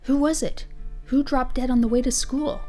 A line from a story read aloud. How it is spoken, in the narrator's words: I heard one of them half whisper